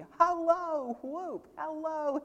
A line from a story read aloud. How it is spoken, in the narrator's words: he cried